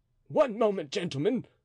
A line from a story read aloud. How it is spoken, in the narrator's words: cried Flamarin